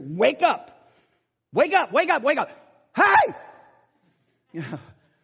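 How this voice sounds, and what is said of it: Yelling loudly. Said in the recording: “you keep yelling like that”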